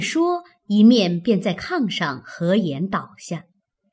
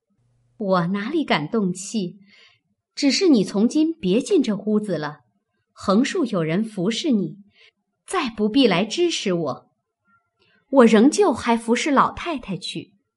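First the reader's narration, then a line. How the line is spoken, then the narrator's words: Cold sneer. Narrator (Chinese): 袭人冷笑道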